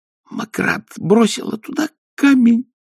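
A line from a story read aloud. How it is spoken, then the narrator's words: Hissing whisper. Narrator (Russian): сказала она свистящим шепотом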